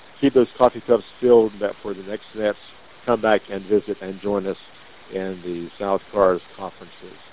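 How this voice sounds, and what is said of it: Strained, worn-out voice. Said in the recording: “As you can hear, my voice is giving out”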